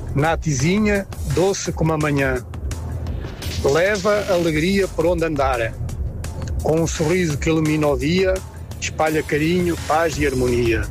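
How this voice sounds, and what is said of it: Put-on European Portuguese accent. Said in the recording (Portuguese): “E com sotaque português ainda, né? Pra dar aquele capricho, aquela sensualidade.”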